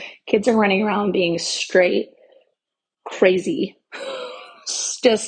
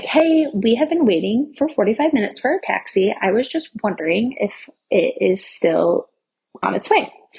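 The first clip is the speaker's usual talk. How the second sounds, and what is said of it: Sweet, polite customer-service voice. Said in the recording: “I call in my nice customer service voice”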